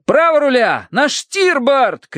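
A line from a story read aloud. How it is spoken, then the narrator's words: Shouting. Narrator (Russian): кричал Терренс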